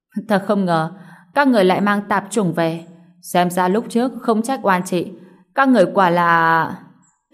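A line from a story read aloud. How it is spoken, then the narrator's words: Stunned, loud mocking laugh. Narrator (Vietnamese): Cô ả ngẩn ra, cười lớn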